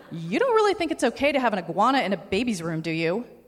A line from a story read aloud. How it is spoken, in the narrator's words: My voice was rising in pitch with every syllable